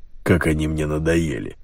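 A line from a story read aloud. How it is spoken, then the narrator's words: Grumbling. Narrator (Russian): проворчал полковник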